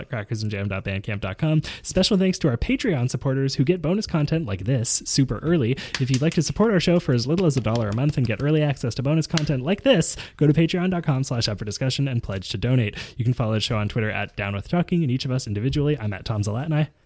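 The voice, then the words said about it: Very fast speech. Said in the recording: “he said that very quickly ... there's like a 0.5 speed”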